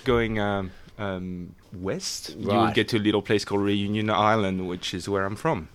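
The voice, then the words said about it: Non-British accent, possibly Australian-sounding. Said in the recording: “Listen to his accent. I think he might be from Perth. ... That is a very good accent.”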